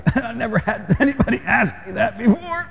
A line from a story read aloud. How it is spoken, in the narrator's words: he was probably choking on the phone as he was like